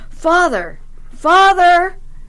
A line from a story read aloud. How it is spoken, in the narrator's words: I yelled